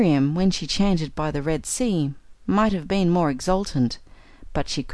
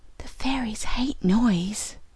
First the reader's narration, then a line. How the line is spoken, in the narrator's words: whispered my little godchild